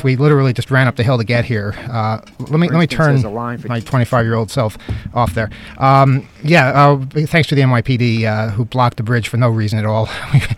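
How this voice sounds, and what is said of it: Out of breath. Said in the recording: “I sound a little out of breath.”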